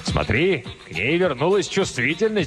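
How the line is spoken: Shouted. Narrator (Russian): крикнул Кризераст

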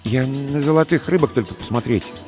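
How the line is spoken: Quiet. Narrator (Russian): проговорил он тихо

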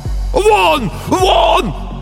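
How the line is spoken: Shouting. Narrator (Russian): кричал писатель

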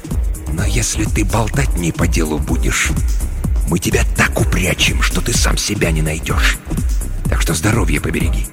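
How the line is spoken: Disgusted hiss. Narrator (Russian): брезгливо морщась, прошипел

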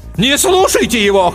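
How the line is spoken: Brave shout. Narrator (Russian): храбро крикнул Ландстрейчер

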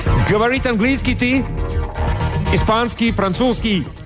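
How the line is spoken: Heavily accented Spanish. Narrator (Russian): Пилот заговорил по-испански с сильнейшим акцентом

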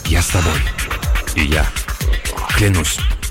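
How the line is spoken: Whispers, one after another. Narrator (Russian): Остальные один за другим стали шептать

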